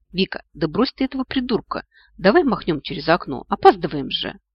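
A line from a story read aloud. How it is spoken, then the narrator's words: Indignant cat's purr. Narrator (Russian): возмущенно урчал кот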